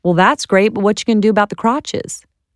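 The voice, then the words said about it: Thick Southern accent. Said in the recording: “he was super Southern and had this super thick accent.”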